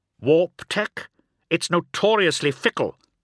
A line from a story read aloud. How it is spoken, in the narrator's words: snapped Omegon